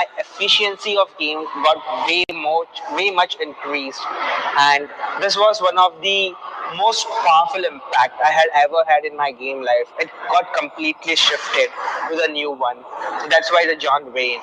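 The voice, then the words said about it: Very strong Indian accent. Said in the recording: “you can hear his accent. It's very, very strong. It's probably the strongest of all my students”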